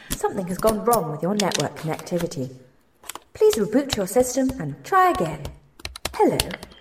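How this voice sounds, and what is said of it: Robotic automated-message voice. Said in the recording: “robot voice”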